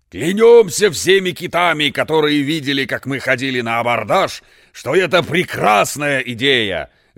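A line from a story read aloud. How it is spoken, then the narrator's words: Delighted shouting. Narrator (Russian): закричали восхищенные министры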